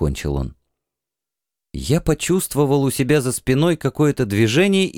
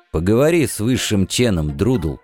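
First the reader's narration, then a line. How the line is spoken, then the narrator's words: Calm statement. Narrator (Russian): спокойно заявил эмир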